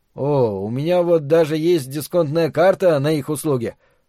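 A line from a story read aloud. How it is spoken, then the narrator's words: Mumble. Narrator (Russian): промямлил Макс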